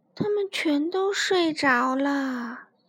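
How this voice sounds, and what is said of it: Quiet soft whisper. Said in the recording (Chinese): “小声地说”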